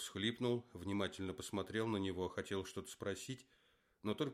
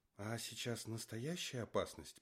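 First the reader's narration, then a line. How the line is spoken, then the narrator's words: Excited but firm whisper. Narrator (Russian): прошептал Юра взволнованно, но твердым голосом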